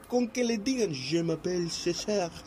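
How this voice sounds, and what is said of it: Put-on French accent. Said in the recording (Spanish): “porque digas tu nombre en acento francés”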